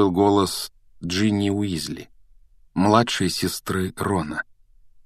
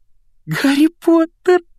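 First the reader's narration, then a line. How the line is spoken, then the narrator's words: Squeaky. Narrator (Russian): пропищала Джинни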